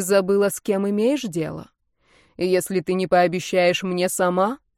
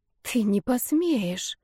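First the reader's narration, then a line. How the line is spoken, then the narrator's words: Whisper. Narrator (Russian): прошептала Данита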